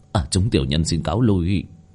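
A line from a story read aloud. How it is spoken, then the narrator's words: Quiet. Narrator (Vietnamese): vị thủ lĩnh kia nhỏ giọng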